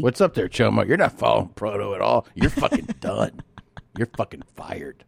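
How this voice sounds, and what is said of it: Imitates another person's voice. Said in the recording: “You really do his voice so well, too ... your impression of him is it goes a little bit into Top Dog ... But then it goes just into Fed Smoker ... It's a little Top Doggy, and then you go into crazy.”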